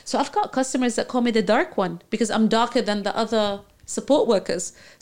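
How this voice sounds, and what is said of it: Slight non-native English accent. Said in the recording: “I am speaking English with an accent. That's it. A small, different accent.”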